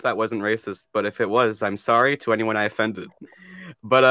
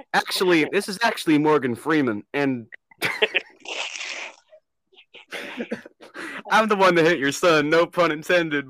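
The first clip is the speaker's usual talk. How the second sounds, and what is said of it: Imitates another person's voice. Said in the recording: “that's why I was going to a Morgan Freeman accent.”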